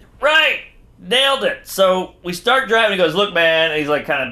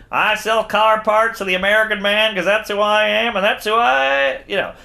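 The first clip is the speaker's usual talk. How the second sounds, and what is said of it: Chicago accent impression. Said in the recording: “Sounded just like him ... That Chicago accent.”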